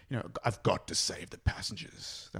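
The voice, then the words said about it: Imitates another person's voice. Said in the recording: “That was the worst impression.”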